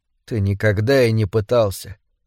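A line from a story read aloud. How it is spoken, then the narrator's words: Quiet. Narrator (Russian): тихо сказала она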